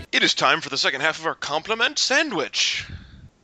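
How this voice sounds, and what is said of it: Narrator-style announcer voice. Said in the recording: “I did that in my narrator, or my... ...announcer voice”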